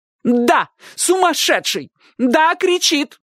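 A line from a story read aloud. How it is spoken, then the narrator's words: Shouting. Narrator (Russian): крикнула тетушка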